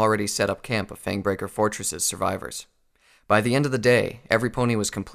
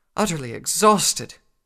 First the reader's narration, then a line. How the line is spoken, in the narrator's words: Rarity replied between pants